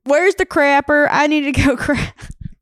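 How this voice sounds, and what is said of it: Southern US accent. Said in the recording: “You come in with your southern accent.”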